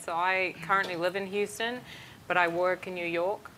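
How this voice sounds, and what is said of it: Funny mixed accent. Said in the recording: “I've got a funny accent”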